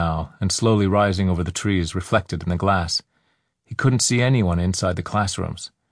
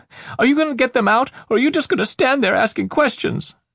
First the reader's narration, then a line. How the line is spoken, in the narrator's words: That shout